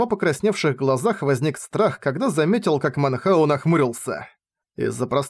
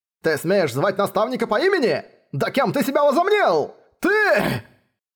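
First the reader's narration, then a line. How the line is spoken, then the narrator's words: Shouting. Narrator (Russian): закричал Гула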